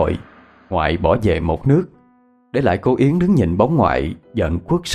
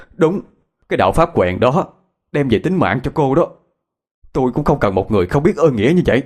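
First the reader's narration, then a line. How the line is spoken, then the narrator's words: Loud shout. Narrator (Vietnamese): Ngoại hét lớn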